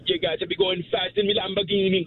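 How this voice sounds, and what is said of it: Put-on Jamaican accent. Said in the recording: “a Jamaican accent”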